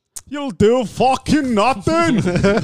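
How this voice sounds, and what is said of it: Imitates another person's voice. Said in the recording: “I'm going to imitate my boss ... That was pretty good.”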